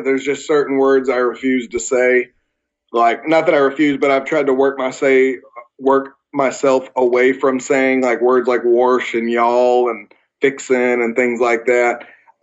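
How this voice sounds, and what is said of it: Southern American accent. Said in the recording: “I have a thick southern accent, but I personally went on a vendetta to change it. And I'm okay with having my southern accent.”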